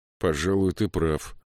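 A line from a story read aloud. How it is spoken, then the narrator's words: Gloomy reply. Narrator (Russian): мрачно ответил Саймон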